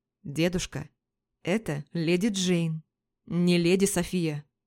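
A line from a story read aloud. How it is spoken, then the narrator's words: Alarmed. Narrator (Russian): Встревоженно ответил Ален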